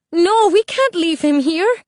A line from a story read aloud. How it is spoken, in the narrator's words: Isabel cried